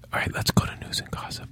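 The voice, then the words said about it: Whispering. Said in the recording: “Why are we whispering?”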